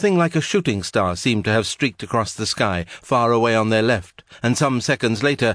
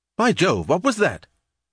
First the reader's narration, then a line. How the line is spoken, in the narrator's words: She also had exclaimed